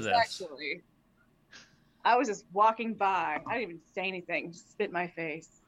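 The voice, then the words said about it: Texas drawl accent. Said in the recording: “My accent. Do not understand my Texas drawl.”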